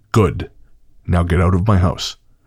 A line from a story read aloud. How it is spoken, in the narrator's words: said in a firm voice